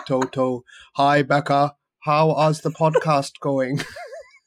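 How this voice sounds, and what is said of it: Put-on Austrian accent. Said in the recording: “let me think of his accent without being offensive... Channel the inner Austrian in you.”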